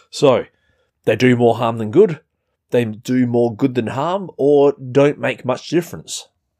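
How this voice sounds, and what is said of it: Australian accent. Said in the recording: “I'm going to change that word American to Australian because, yeah, as you can tell from my weird accent, I'm not American.”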